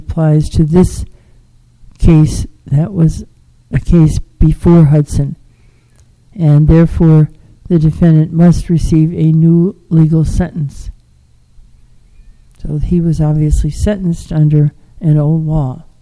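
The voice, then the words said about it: Strained, unwell-sounding voice. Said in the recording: “If you can hear, my voice is not good today”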